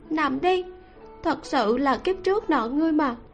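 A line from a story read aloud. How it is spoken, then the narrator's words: Resigned sighing woman. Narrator (Vietnamese): nàng thở dài bất đắc dĩ nói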